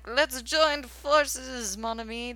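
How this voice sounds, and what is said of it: Bad put-on French accent. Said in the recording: “That's my French accent. This is why I don't do accents.”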